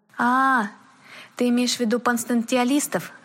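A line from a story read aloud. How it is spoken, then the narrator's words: Relieved sigh. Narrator (Russian): облегченно вздохнул Дэвид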